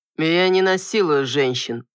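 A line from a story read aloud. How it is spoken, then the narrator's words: Mocking remark. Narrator (Russian): насмешливо бросил Алан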